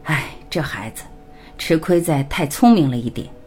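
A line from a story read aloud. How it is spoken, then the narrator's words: Long sigh. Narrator (Chinese): 爸爸长叹一声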